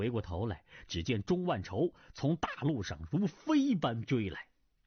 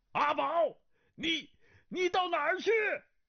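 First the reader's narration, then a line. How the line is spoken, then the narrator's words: Sharp shout. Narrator (Chinese): 一人厉声喊道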